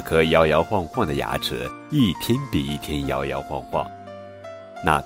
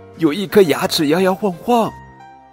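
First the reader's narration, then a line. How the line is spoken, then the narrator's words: Child's shriek. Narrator (Chinese): 小公主尖叫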